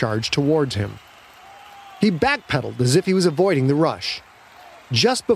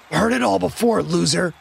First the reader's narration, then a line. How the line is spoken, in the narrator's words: Quentin grunted out